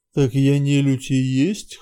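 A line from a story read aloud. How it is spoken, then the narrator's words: Chuckling. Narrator (Russian): хохотнул обжора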